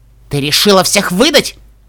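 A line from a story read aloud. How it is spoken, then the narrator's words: Hiss. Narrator (Russian): прошипела Даймон Тиара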